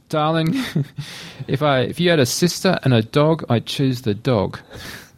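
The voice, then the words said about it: Bad put-on English accent. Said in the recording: “My worst English accent ever”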